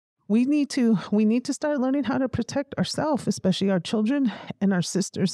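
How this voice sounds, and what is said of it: Emotional, wavering voice. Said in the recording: “Sorry, I'm getting emotional about it”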